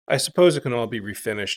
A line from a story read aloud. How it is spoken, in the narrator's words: she said